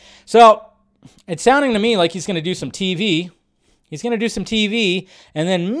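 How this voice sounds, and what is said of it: Usual voice. Nothing is said of it.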